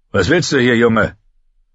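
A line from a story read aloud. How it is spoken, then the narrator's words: Man calling out. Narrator (German): rief der Mann, der seine Runden drehte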